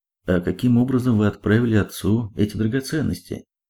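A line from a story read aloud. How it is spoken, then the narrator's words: Plain. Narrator (Russian): спросил Половинкин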